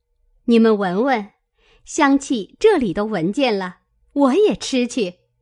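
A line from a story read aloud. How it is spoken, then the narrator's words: Laughing. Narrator (Chinese): 探春笑道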